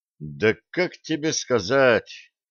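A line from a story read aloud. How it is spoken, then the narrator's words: Muttered. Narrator (Russian): пробормотал Блад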